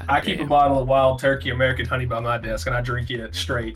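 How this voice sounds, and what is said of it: Southern accent. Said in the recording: “that southern accent”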